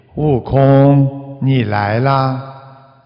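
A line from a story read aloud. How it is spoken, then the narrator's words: Calm, flat. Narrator (Chinese): 观世音菩萨淡淡的说了一句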